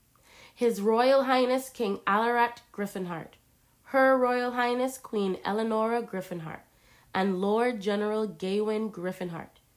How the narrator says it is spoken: the man announced in a loud voice

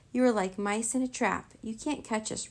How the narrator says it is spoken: Rory cried, still racing down the steps

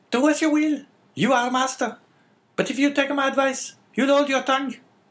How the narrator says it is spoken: cried La Carconte

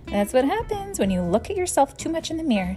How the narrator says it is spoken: said

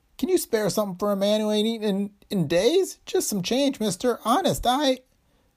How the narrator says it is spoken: the tall man whined

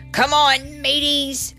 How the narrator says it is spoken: I yelled in my best pirate speak

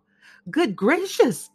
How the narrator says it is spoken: cried Maria

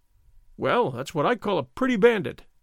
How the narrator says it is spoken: Don Diego exclaimed

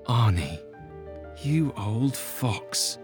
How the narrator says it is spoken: he muttered

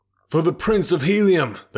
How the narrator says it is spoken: they cried

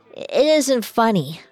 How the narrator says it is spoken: she slurred

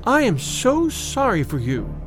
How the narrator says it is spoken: she said

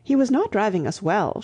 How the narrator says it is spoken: she said

